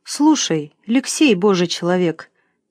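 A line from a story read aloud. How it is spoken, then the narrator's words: Quiet, cow speaking. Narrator (Russian): тихо сказала корова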